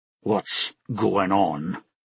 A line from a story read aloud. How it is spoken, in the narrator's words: Olam asked through clenched teeth, his eyes full of anger and hurt